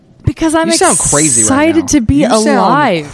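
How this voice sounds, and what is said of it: Yelling, loud excited voice. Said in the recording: “Why are you yelling?”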